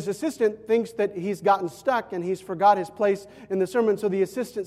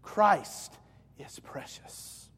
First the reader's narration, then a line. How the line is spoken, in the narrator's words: whispers